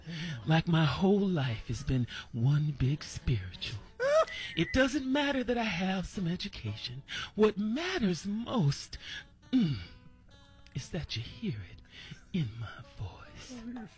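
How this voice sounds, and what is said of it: Dramatic reality-TV performance voice. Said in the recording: “when I'm speaking normally, this is how I sound, but when I want the reality part, I sound like this”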